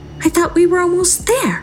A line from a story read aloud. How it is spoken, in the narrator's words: she said impatiently